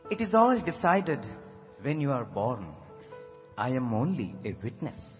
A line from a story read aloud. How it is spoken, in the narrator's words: Bhagwan calmly replied